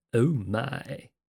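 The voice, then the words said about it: George Takei impression. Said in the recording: “my best George Takei impersonation.”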